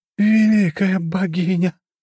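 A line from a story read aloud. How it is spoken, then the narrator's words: Moan. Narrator (Russian): простонала она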